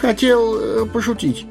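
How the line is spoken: Timid babbling. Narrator (Russian): пролепетал он

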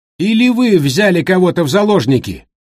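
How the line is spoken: Shouted reply. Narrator (Russian): прокричал в ответ

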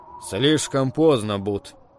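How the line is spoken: Gloomy reply. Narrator (Russian): мрачно ответил Туки

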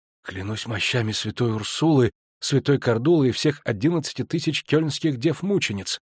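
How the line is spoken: Strained, forced out. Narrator (Russian): выдавил из себя Хассопланк

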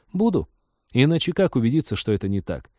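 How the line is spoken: Cheerful reminder. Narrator (Russian): бодро напомнила

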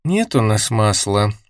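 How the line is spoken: Sighing. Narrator (Russian): вздохнула Кристина

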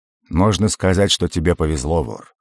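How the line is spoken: Amused snort. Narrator (Russian): хмыкнул барон

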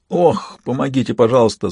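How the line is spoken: Moaning. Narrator (Russian): застонал я

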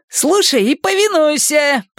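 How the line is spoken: Shouting. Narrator (Russian): прокричал он

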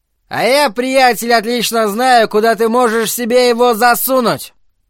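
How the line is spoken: Grinning yell. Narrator (Russian): Мастертон в широкой ухмылке заорал в ответ

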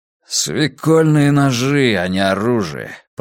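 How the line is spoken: Grumbling. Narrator (Russian): проворчал Зло

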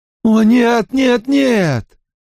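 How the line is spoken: Whimpering plea. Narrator (Russian): взмолился он и, захныкав

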